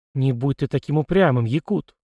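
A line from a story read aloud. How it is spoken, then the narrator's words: Calm reply. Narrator (Russian): спокойно ответил Надежда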